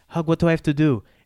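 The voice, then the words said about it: Imitated Greek accent. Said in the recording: “my mother has a Greek accent, that's why I'm talking like that.”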